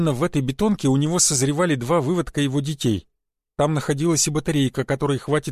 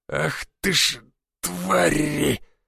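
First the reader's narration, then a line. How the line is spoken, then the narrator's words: Forced through teeth. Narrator (Russian): выдавил он сквозь зубы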